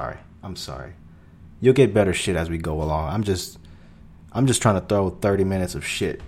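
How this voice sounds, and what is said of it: Usual voice. Nothing is said of it.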